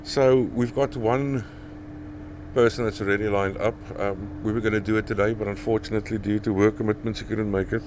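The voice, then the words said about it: Strong Afrikaans accent. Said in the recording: “my accent is still very strong Afrikaans”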